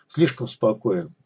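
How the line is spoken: Muttered. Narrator (Russian): пробормотал технарь

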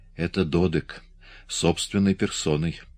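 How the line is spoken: Whisper. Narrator (Russian): прошептал Саас

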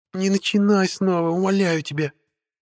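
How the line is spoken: Witch's pleading moan. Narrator (Russian): простонала ведьма

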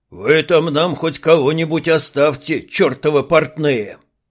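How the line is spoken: Booming bass, burly sergeant. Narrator (Russian): прогудел басом сержант, бочкоподобный Арни

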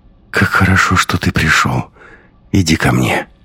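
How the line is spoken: Sleepy whisper. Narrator (Russian): сонно прошептала

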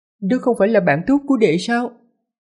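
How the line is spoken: Smiling woman. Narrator (Vietnamese): Sư tỷ Thiêu Hoa mỉm cười nói

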